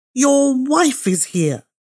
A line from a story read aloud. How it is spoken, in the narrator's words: desperate then, seeing the white figure approaching nearer and nearer, screamed into his father's ear